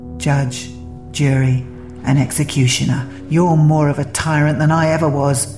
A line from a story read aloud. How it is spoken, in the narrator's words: spat